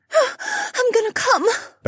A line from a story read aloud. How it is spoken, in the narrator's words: Becca gasped